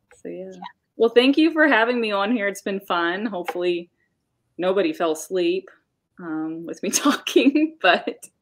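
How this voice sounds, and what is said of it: Soothing voice, slight Southern twang. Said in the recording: “you have a very soothing voice... kind of hypnotizing... a little bit of Southern accent in there... a little bit... the Southern twang... A little draw.”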